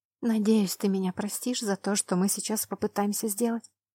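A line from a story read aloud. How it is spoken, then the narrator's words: Whispered. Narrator (Russian): прошептала я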